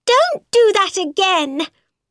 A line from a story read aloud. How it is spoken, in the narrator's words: she cried